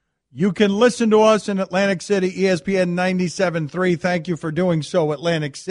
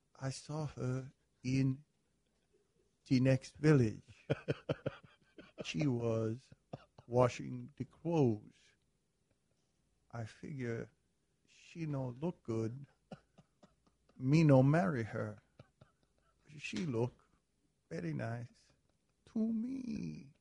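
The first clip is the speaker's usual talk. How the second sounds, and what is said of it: Impression of a movie character. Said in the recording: “I don't do impersonations except one from Harry Met Sally.”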